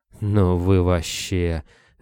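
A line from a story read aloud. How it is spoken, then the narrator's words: Exhaled. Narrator (Russian): выдохнул Кобылин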